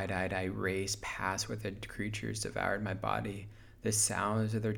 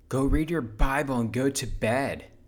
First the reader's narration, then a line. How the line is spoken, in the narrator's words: Wade yell